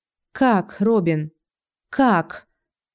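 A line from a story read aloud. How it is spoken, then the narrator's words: Tired. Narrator (Russian): устало произношу я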